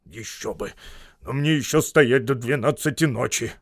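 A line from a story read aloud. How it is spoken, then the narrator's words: Grumbling fat man. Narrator (Russian): пробурчал толстяк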